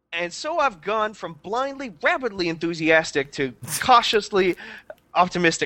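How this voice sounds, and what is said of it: Impression of a co-host's voice. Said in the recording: “this in a Sean Norton voice ... I don't know if that's a Sean impression at all”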